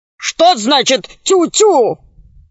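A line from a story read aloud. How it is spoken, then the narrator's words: Barking. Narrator (Russian): рявкнул Громозека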